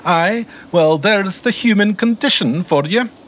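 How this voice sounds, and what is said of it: High-pitched Scottish accent. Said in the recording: “always delivered in a high-pitched Scottish accent”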